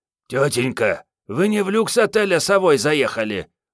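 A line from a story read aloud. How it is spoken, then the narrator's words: Hoarse. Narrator (Russian): прохрипела Мариетта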